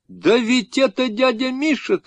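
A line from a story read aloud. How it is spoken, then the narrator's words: Shouting. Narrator (Russian): крикнул Сережка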